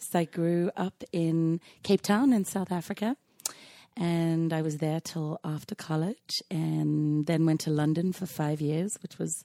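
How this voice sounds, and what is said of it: Slightly hoarse, husky voice. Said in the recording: “I do have my super sexy voice on today ... That's a good way to lose your voice a little bit.”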